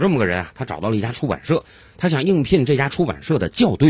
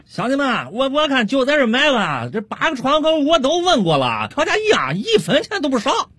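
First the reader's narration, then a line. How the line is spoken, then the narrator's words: Old man shouting loudly. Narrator (Chinese): 王老汉 大声喊道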